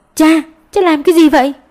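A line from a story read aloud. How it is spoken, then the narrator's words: Urgent loud shout. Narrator (Vietnamese): Tiểu Lan vội hét lớn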